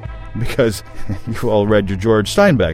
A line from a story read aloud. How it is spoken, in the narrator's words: said, still laughing